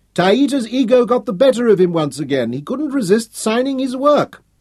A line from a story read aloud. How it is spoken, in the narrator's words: she laughed